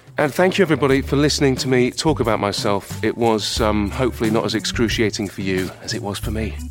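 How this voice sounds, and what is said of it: British accent. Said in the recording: “lovely British accent”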